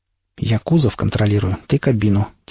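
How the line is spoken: Said quietly. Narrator (Russian): тихо сказал Пригоршня

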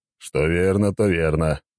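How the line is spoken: Snorting. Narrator (Russian): хмыкнул он

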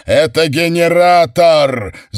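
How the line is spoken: Shouting. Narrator (Russian): закричал Уэйнрайт

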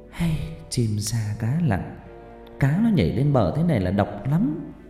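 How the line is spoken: Sighing woman. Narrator (Vietnamese): Bà Vi thở dài

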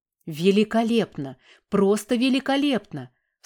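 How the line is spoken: Excited exclamation. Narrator (Russian): воскликнул профессор

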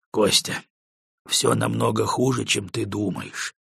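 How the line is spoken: Said quietly by colonel. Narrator (Russian): негромко произнес полковник

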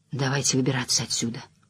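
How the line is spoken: Barely audible. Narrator (Russian): едва слышно произнес Перрин

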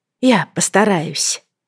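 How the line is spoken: Quiet whisper. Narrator (Russian): прошептала Лайза тихо

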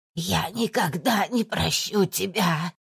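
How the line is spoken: Hoarse rasp. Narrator (Russian): хрипела Валентина

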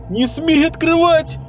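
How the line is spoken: Shrieking mother. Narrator (Russian): мать завопила

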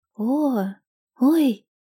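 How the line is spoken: Strained, squeezed out. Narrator (Russian): она смогла выдавить из себя

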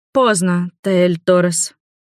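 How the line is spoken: Weary female vampire. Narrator (Russian): устало произнесла вампирша

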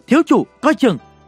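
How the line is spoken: Urgent warning shout. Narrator (Vietnamese): lao tới la lên

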